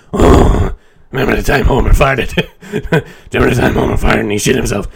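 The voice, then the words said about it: Impression of a cartoon character's voice. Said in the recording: “Homer, that sounds more like Patty and Selma... That's my best Patty.”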